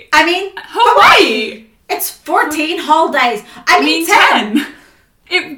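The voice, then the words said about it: Perky, confident customer service voice. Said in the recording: “her customer service voice ... the perkiness and the, like, confidence with which she said ... things”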